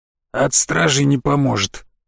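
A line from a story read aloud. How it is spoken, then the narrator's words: Hoarse, indifferent warning. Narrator (Russian): с хриплой безразличной интонацией предупредил Бахус Либер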